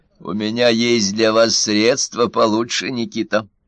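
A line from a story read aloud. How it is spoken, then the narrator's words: Plain. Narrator (Russian): сказал Минц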